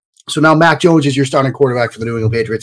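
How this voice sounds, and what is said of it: Boston New England accent. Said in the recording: “if the accent doesn't completely give it away, I am a Boston, a New England, I'm a Boston guy, a New England guy”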